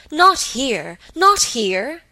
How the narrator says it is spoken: he cried vehemently

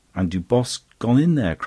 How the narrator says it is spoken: cried the Duke

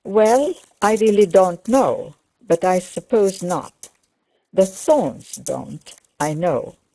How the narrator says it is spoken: said Mrs

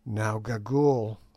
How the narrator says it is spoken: said I in a low voice

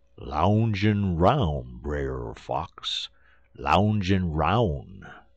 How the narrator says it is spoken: says Brer Terrapin

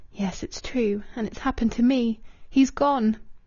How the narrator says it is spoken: She whispered alone in the room

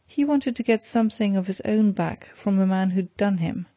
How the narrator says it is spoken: answered Glassdale, with a short laugh

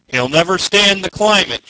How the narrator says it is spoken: shouted back

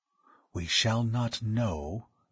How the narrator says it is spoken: he breathed

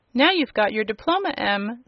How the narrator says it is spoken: said Uncle Henry, with a laugh

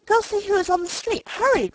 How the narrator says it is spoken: cried the excited mother

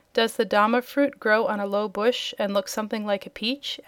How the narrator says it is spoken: asked the Wizard

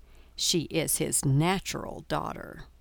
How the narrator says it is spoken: lowering her voice a little, she said to Eleanor

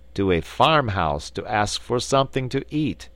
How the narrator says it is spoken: said he

